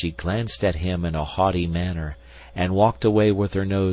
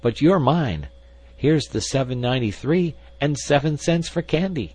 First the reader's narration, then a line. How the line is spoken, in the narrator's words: exclaimed